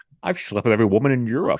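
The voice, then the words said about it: Imitates another person's voice, lisped S's. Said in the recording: “These episodes cannot escape the Connery impressions ... It's just funny to put that accent ... with the S's in there”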